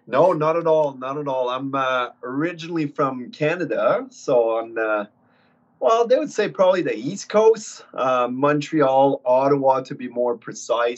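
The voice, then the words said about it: Non-Australian, Canadian-sounding accent. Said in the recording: “I can tell by your accent, this is not originally where you're from”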